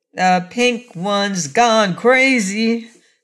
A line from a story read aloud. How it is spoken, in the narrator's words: exclaimed Button Bright